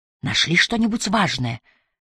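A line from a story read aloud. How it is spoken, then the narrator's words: Whisper behind a door. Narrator (Russian): послышался из-за двери шепот Трэвиса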